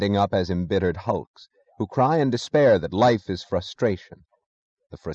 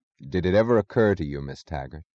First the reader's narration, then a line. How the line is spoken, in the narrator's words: said Galt in the casual tone of an abstract discussion, but as if he had known her thoughts